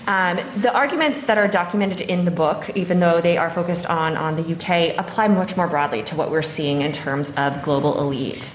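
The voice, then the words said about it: Non-local accent. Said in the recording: “you can tell from my accent, I'm not from here”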